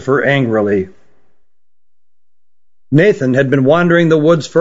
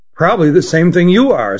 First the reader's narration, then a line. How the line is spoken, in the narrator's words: said Nathan